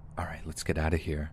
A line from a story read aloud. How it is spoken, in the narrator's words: Joe hissed